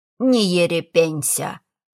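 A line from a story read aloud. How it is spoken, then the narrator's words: Grumbling. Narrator (Russian): проворчала женщина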